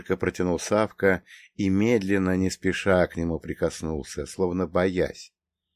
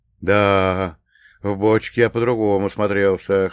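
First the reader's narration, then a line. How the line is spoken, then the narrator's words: Snorting. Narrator (Russian): хмыкнул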